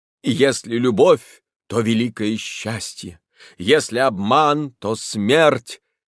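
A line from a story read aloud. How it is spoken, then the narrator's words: Stirring theatrical voice. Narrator (Russian): Артистка потрясающим голосом сказала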